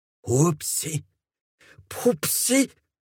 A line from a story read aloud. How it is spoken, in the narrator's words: spluttered Mortimer